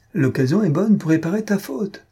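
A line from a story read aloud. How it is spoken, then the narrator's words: Laughing. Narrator (French): dit Rimbaud en riant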